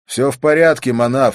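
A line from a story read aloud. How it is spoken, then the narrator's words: Loud. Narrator (Russian): сказал я громко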